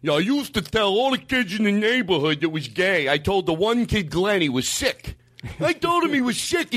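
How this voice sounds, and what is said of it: Overly dumb put-on accent. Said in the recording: “I'm going to do an overly dumb accent.”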